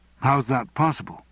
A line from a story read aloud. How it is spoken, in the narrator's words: asked Andrew